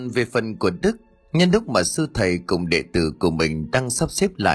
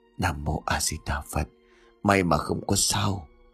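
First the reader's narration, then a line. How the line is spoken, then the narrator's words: Monk muttering. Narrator (Vietnamese): Sư thầy lẩm bẩm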